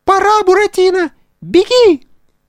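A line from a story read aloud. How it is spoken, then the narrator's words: Squeaky, close to ear. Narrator (Russian): пискнула ему над ухом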